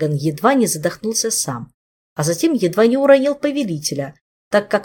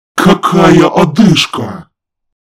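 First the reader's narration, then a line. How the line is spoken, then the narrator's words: Exasperated howl. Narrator (Russian): Взвыл он не в силах это терпеть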